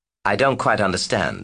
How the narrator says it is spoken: said Sally

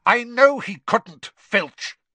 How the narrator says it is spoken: Snape snapped

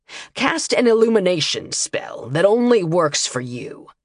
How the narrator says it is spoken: he ordered, his tone darkening

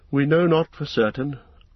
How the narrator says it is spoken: answered Elrond sadly

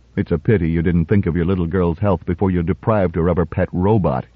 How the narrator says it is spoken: he muttered, but to himself

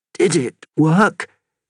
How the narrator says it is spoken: he croaked

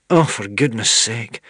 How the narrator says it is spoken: said Queen Sycorax with a sigh

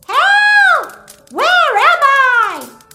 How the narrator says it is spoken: she shouts

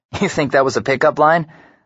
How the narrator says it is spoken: laugh once

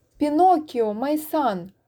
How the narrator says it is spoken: cried old Geppetto

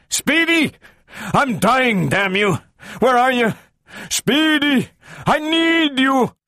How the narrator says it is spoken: He called a last time, desperately

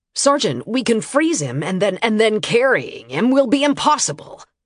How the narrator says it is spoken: Harkin snapped tiredly

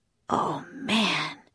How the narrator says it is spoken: whispered Jack

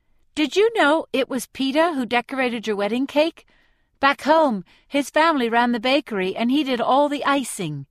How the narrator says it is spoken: says Deli brightly

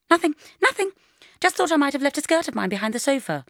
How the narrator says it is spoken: I said, wildly plumping up the cushions, as if I were in a French farce

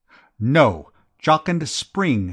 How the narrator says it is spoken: snapped

